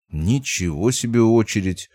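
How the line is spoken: Mutter. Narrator (Russian): пробормотал я

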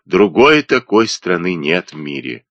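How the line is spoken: Sentimental sigh. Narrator (Russian): продолжал Джипа, чувствительно вздохнув

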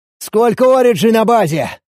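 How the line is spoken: Shout. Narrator (Russian): крикнул я

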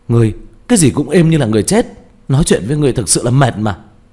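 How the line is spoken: Exasperated angry cry. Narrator (Vietnamese): Diệp Thiếu Dương tức giận đến không chịu được kêu lên

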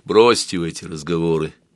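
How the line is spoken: Quiet. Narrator (Russian): тихо сказал

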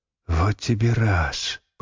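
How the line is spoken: Mutter. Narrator (Russian): пробормотал Шварц

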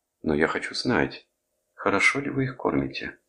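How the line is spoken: Feigned sigh. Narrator (Russian): Кресс притворно вздохнул

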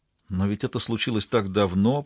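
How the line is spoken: Mumble. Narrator (Russian): пробормотала Синтия

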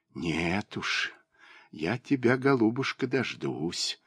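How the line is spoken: Whispered. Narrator (Russian): прошептала она

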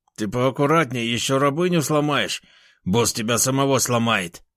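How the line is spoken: Grumbling raccoon. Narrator (Russian): проворчал енот

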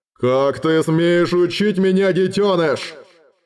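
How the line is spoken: Roaring. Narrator (Russian): взревел Глоэдр

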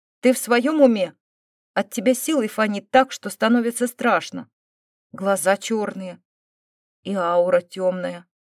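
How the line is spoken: Accusing tone. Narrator (Russian): обличительным тоном добавил Фил

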